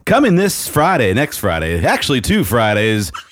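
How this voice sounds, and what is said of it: Announcer-style promo voice. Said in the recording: “put on your best promo voice that you have and do an MHG charity golf tournament promo”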